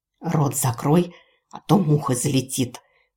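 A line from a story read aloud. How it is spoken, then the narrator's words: Hissing. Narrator (Russian): прошипела Герда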